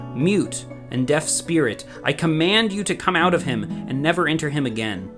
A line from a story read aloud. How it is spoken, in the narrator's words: Jesus spoke harshly to the unclean spirit